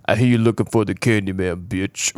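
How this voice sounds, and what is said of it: Imitates a film character's accent. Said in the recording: “he takes on the accent ... That was pretty close.”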